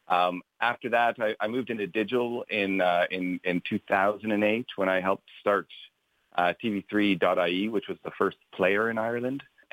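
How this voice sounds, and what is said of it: Canadian accent. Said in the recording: “As you can tell by my accent, I'm not local. I grew up in Canada”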